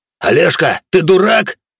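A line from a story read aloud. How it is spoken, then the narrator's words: Yelling. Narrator (Russian): заорал Саша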